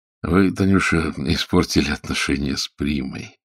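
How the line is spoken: Quiet. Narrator (Russian): тихо сказал Леонидов

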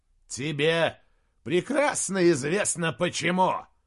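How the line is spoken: Growl. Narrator (Russian): прорычал Джошуа

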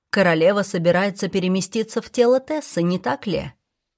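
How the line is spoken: Plain. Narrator (Russian): спросила Финелла

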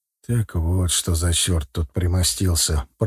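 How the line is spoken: Quiet whisper. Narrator (Russian): прошептал тихо

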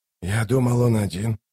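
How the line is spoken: Puzzled mutter. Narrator (Russian): недоумевая пробормотал Ток

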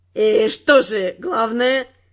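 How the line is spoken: Mocking question. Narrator (Russian): Насмешливо осведомился зачинщик

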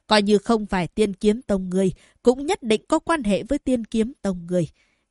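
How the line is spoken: Harsh gritted voice. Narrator (Vietnamese): Diệp Huyền nhìn kiếm thập phong, gằn giọng nói

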